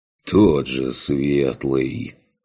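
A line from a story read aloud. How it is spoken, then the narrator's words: Sighing. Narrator (Russian): вздохнул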